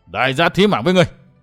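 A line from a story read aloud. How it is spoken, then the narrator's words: Roaring. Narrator (Vietnamese): Người bịt mặt gầm vang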